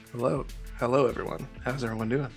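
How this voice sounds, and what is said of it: Smooth, put-on sexy voice. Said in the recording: “put on your sexy voice? What happened to regular? ... this is going to smell really smooth”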